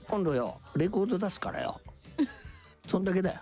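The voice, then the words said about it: Imitates another person's voice. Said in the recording (Japanese): “今モノマネ ... モノマネです ... 金ちゃんの ... 一応モノマネなんで”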